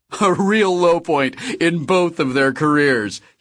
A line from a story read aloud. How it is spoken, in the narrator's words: he said, laughing